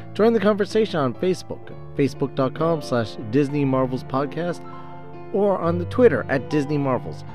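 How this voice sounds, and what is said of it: Congested, cold-affected voice. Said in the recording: “apologize for my voice ... As you can tell, I'm still fighting a little bit of a cold”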